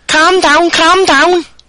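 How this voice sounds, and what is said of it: Put-on Scouse accent. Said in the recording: “I can do a calm down though ... People from Liverpool area, or of the surrounding areas, a Scouser is a Liverpool resident.”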